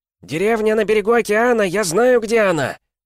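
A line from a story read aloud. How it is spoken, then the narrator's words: Yelling. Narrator (Russian): вопил третий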